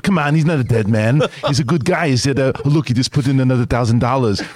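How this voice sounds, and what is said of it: Imitates another person's voice. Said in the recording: “my favorite impression ... Scott Mads impression.”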